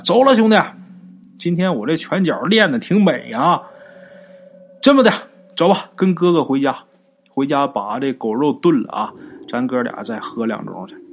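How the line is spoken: Proud shouting. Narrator (Chinese): 大宝…挺胸抬头就喊啊

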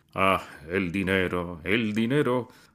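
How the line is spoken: Father's sigh. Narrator (Spanish): suspiró el padre

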